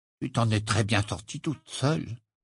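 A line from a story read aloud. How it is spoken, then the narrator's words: Mutter. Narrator (French): marmonna-t-il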